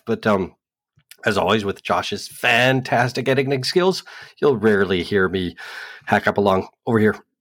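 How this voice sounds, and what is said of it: Rough, recovering voice. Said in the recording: “my voice may be a bit rough”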